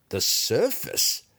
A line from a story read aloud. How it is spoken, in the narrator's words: echoed Hotchnut with a laugh